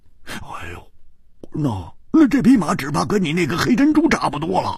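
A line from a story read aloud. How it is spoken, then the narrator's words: Laughing. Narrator (Chinese): 胡铁花笑着说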